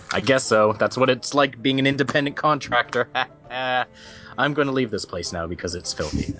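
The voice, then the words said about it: Strained put-on accent. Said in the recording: “this accent is hurting my throat”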